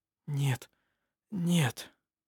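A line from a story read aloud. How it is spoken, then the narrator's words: Whisper. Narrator (Russian): прошептал Хейке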